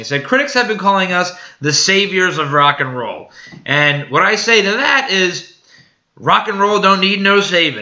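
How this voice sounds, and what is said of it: Put-on British accent. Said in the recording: “Picture this in like a little like British accent.”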